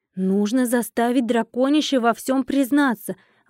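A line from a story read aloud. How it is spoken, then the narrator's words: Exclamation. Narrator (Russian): воскликнула я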